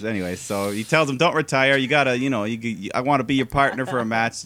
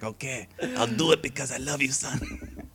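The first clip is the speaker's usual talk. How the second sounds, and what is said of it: Imitates another person's accented voice. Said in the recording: “See, that's an accent. That's an accent right there.”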